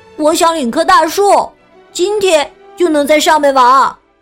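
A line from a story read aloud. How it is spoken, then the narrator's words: Loud announcement. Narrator (Chinese): 富兰克林大声的告诉大家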